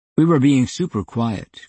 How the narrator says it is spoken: Graham said

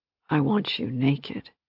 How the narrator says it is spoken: he rasped between kisses

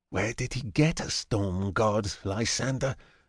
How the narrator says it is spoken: Ajax asks quietly

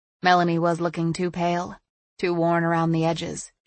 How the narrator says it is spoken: Jamie said flatly

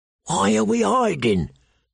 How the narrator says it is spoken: the bull whispered

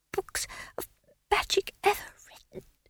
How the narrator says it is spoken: he whispered

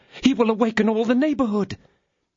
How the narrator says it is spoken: Bonancieux cried out for a long time

